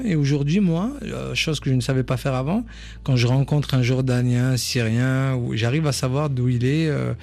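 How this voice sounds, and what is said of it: Southern French accent. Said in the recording (French): “On a beau avoir un super accent français, moi, en plus du sud”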